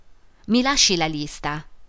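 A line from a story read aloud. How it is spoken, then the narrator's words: Plain. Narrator (Italian): disse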